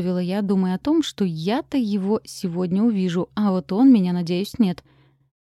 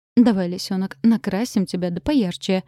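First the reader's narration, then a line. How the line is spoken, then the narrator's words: Hurried. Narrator (Russian): торопливо сказала она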